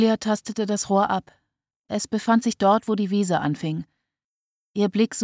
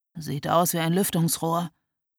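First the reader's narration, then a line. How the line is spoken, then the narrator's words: Murmured. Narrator (German): murmelte Florian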